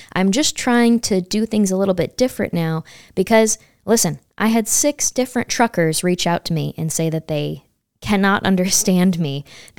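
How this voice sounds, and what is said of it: Loud, near-yelling speech. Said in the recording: “why are you yelling at us? I'm sorry if I'm yelling. ... I'll start talking louder”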